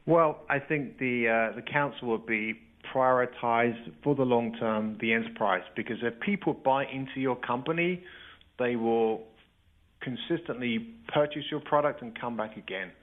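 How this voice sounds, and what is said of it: Speaker with a noticeable accent. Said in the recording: “I love your answer and your accent, and it's wonderful.”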